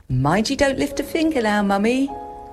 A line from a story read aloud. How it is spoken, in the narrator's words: called Annabel cheerfully